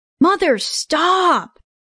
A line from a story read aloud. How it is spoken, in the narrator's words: Mitchell boomed